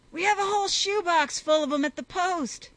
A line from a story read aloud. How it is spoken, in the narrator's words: Lunt yelled to him above the din